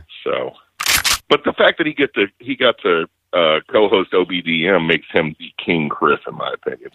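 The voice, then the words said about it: Smoker's radio voice. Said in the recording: “you got a great radio voice. ... Have a good radio voice. ... It's called Smoking. I've been smoking since the age of 14.”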